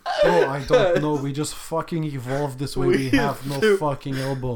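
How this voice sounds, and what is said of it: Mock Slovenian man's accent. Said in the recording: “My best impression of a Slovenian man”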